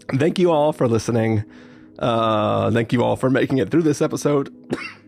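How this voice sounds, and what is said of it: Hoarse, nearly lost voice. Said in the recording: “my voice is completely gone.”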